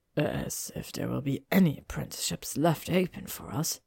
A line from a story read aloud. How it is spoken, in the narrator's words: Zabini muttered, but the room was quiet enough that McGonagall heard it